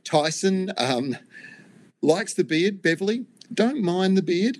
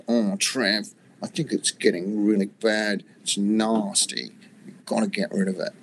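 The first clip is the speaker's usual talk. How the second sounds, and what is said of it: Impression of Nigel. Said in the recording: “my best Nigel impersonation ... How's that for a Nigel impersonation?”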